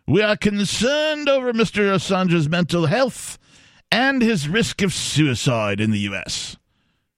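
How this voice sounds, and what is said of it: Attempted English accent. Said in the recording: “Is that an English accent? I think so. I was trying. ... British accent you did.”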